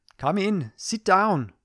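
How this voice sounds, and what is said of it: Put-on Indian accent, commanding tone. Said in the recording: “she's got a real Indian accent, not my sort of racist white man effort... I think it gets across her commanding tone”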